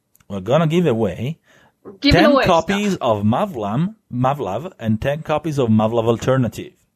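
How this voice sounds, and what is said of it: Italian accent. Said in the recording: “my sweet, sweet Italian accented word”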